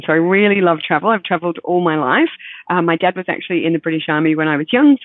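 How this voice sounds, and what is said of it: Mixed British-Australian accent. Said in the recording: “I grew up in Belgium and Germany and England and Scotland, which also might account for the mixture in my accent before we came to Australia”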